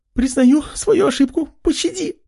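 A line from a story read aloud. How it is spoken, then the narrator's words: Pleading. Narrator (Russian): Взмолилась блондинка, что была куда слабее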